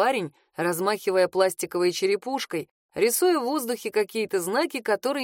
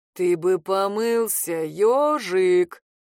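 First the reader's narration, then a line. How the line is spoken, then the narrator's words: Growled into ear. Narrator (Russian): прорычал ему в ухо бес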